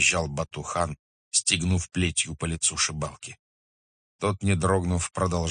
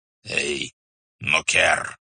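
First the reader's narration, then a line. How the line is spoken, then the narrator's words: Hoarse rasp. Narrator (Russian): прохрипел Субдай-богатур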